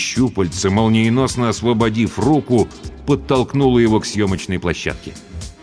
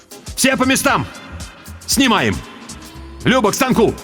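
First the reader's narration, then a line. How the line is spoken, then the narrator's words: Shout. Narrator (Russian): крикнул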